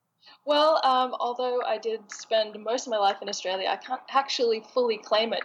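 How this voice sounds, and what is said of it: American-sounding accent. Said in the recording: “You sound so American, given that you are Australian.”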